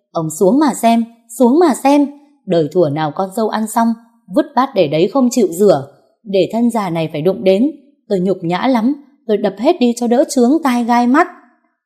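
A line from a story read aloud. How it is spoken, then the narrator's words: Mother-in-law's shrill hiss. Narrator (Vietnamese): Tiếng mẹ chồng tôi rít lên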